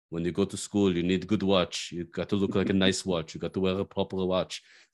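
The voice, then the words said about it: Put-on Israeli accent. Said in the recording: “he tells me in Israeli accent”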